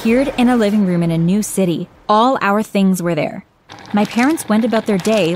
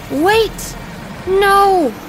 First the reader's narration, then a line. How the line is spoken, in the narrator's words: I heard Elizabeth shouting